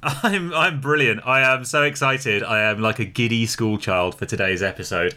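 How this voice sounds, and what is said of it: Loud, excited shouting voice. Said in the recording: “I'm shouting into my microphone with excitement by accident”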